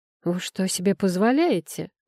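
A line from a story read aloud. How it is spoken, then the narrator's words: Indignant. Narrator (Russian): возмутился мой кавалер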